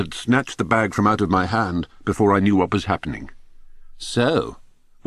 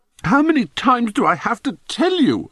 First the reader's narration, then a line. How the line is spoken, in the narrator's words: I howled